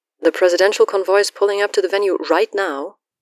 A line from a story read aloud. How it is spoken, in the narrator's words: Wynn whines